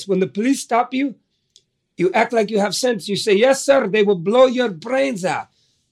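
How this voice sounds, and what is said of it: Imitation of father's accented voice. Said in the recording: “that old man with that accent ... Here's my father's voice ... It's in my brain with that accent.”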